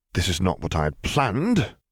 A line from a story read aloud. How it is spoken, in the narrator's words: he muttered resignedly